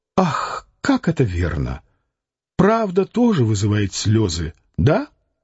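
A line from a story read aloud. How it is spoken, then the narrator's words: Sad. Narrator (Russian): Таня Куликова печально сказала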